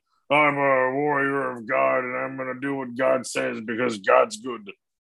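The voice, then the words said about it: Imitates a TV character's voice. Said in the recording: “I don't know what that imitation was.”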